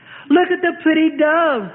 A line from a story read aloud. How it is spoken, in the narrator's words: the daughter shrieks